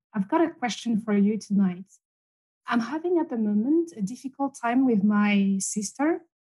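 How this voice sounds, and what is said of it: Foreign accent. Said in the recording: “gorgeous accent”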